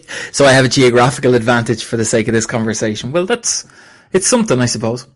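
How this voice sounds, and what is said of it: Irish accent. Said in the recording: “you've got a much better accent as well. It's such a cool accent, the Irish accent”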